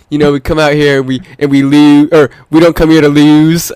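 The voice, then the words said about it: Imitated Baltimore accent. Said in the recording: “those crazy accents, like the Baltimore accents”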